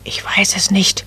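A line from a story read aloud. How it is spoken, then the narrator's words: Whisper. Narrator (German): flüsterte Nadelbäumchen zurück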